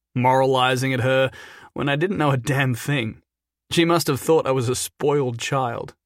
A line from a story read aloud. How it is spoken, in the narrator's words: Jason said, with a sad, reminiscent laugh